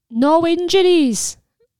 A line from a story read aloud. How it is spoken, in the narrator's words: Lily cried, causing her lungs to pinch in pain